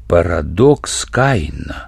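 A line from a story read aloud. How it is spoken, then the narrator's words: Surprised mutter. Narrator (Russian): удивленно пробормотал Семенов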